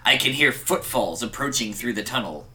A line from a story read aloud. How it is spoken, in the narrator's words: growled Grignr in a hushed tone